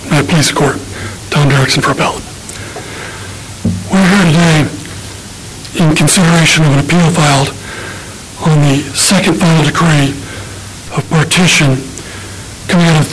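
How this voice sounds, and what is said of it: Strained, failing voice. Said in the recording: “I'm not sure my voice is going to make it”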